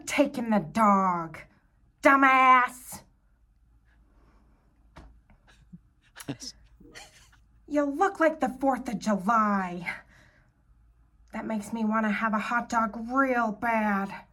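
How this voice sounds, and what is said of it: Imitates another person's voice. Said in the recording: “my impression of Jennifer Coolidge from Legally Blonde”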